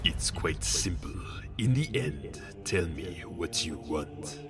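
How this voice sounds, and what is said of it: Imitated Palpatine character voice. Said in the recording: “do a Palpatine voice. It's not quite a Sidious voice, it is a bit more difficult, so it might sound kinda weird”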